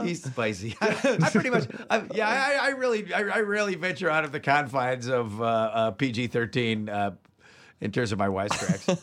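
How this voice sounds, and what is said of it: Imitates another person's voice. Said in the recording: “Now that's a good Rob Paulson. ... That is a good Rob Paulson impersonation. ... that was an excellent Rob Paulson impersonation. ... that was a fucking spot on.”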